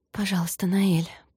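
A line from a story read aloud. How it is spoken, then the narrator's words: Whispered. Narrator (Russian): прошептала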